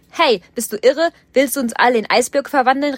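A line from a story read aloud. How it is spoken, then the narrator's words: Called out. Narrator (German): rief Tim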